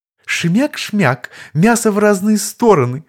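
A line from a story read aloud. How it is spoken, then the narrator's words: Sugary-voiced freak holding forth. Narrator (Russian): Слащавым голосом вещал уродец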